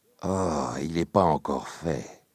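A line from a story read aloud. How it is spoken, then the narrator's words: Murmuring. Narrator (French): murmure Fernand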